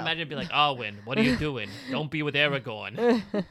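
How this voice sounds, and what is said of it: Weird New York-esque accent. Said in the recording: “with his, like, weird New York-esque accent.”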